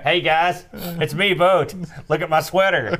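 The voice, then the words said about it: Imitates another person's voice. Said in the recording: “That's my impersonation.”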